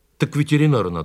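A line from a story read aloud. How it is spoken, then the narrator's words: Plain. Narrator (Russian): сказал я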